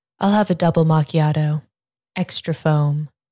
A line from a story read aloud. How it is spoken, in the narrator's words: Julia replied